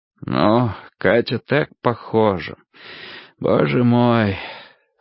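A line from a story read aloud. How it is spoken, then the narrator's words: Said with a sigh. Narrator (Russian): сказал, вздохнув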